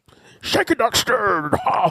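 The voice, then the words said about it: Imitates another person's voice. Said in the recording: “doing a Sean Connery impersonation ... Is that always your Busta impression? Do you always do that weird?”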